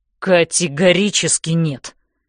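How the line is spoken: Through clenched teeth. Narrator (Russian): цедит он сквозь зубы

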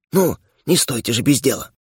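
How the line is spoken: Hiss. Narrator (Russian): Лялина прошипев ей

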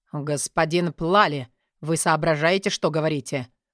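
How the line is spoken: Cold, clipped, syllable by syllable. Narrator (Russian): Холодно, четко, практически по слогам произнес Тилорби

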